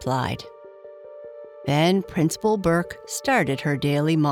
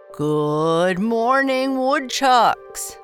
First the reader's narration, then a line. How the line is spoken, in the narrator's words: boomed Principal Burke